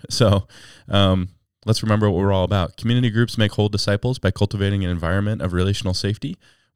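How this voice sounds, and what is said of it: Sick, under-the-weather voice. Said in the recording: “You could probably hear from my voice, I'm a little under the weather”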